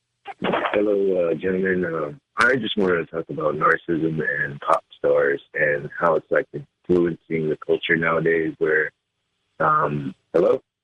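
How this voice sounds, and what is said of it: Muffled voice on phone line. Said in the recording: “you sound really muffled,”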